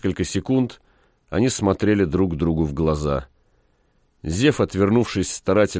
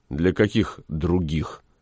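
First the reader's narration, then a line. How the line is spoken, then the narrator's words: Gloomy question. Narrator (Russian): мрачно спросил Максим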